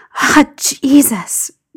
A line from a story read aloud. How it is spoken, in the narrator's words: John breathed